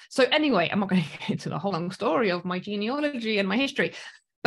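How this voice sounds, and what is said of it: Mostly British accent, slight South African. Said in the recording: “I've got like, I don't know, 80% British, 20% South African ... when I go back to South Africa, everyone thinks I'm British, and then the Brits will think I'm South African”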